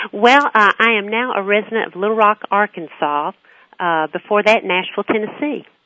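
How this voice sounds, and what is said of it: Southern US accent. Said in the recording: “they're going to know from that Southern accent”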